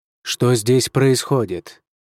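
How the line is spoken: Menacing nobleman's demand. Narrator (Russian): грозно вопросил вельможа

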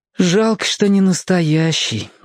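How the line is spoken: Sighed. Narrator (Russian): вздохнул Том

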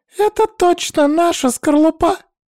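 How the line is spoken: Unexpectedly high-pitched. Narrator (Russian): ответил он неожиданно высоким голосом

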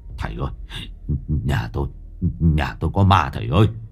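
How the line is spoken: Trembling, stammering. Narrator (Vietnamese): vẫn còn chưa hết run rẩy, ông lắp bắp nói với thầy

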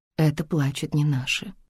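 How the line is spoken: Whisper. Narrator (Russian): прошептала

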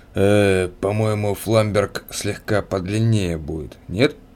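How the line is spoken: Blacksmith's weary sigh. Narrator (Russian): Кузнец устало вздохнул

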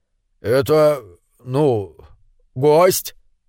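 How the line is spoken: Mumbling. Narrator (Russian): промямлил собрат номер один

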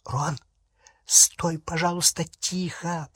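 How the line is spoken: Whisper. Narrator (Russian): прошептала Полумна

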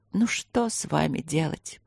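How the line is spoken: Sad, quietly moved question. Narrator (Russian): грустно спросила мама, не признаваясь, что тронута последними словами

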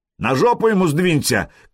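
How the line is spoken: Shout. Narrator (Russian): крикнул Хузарин

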